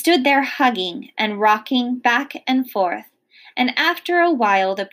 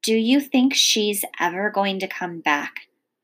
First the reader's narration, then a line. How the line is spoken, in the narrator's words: whispered